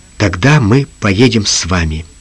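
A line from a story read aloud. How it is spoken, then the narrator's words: Quiet reply. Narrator (Russian): Джим тихо ответил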